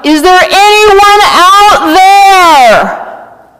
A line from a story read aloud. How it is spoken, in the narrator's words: I yelled out